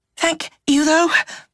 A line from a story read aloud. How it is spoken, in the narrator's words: panted